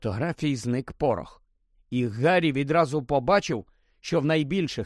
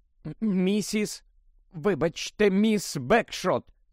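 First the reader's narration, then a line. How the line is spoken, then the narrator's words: Slightly trembling voice. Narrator (Ukrainian): звернувся до неї він дещо тремтячим голосом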